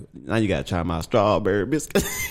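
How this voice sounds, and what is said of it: Put-on Southern accent. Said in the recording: “Why'd you do the accent? Why couldn't you just talk about it in a regular voice? ... Why was the accent necessary in this?”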